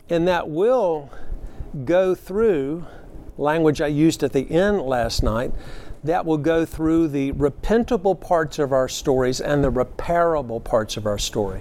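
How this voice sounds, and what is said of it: Southern North Carolina accent. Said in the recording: “my North Carolina redneck accent ... we sometimes drop syllables in North Carolina and we put in extra R's”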